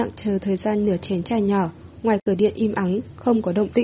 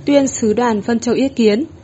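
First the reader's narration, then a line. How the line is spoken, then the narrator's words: Loud announcement. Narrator (Vietnamese): cao giọng nói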